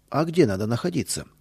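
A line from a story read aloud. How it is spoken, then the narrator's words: Plain. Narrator (Russian): спросил он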